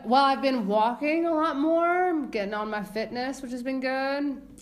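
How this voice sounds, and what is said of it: Voice slips into weird accent. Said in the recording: “My voice just kind of changed into a weird accent.”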